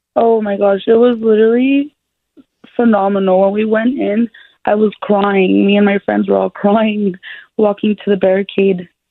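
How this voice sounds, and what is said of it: Hoarse, nearly lost voice. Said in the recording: “My voice is completely gone.”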